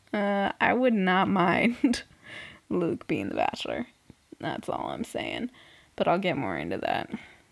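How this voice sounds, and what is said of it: Strained voice giving out. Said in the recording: “my voice is just going”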